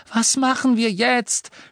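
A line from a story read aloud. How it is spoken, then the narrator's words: Shouting over roaring fire. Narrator (German): schrie Hermine durch das ohrenbetäubende Brüllen des Feuers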